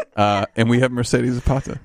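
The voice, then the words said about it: Radio announcer voice. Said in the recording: “let me get my radio voice on”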